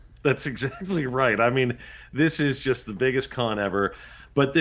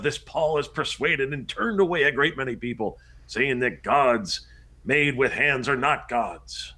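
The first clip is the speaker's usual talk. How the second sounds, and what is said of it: Impression of a ranting demagogue. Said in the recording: “my best impression of a demagogue”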